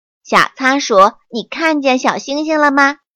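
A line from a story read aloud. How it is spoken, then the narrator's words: Loud. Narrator (Chinese): 青蛙说什么话都那么大声音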